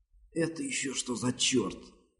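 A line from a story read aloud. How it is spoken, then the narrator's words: Hissing woman. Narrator (Russian): прошипела она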